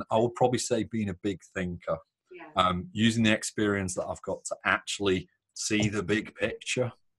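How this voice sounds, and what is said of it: Northern English accent. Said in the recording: “British and Northern ... you've got such a cool accent ... my accent”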